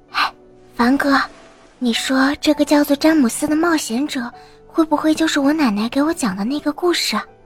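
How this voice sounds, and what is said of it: Quiet, hushed question. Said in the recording (Chinese): “小声的问”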